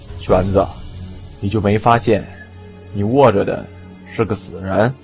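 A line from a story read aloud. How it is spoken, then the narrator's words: Low-voiced question. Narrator (Chinese): 李存壮低声问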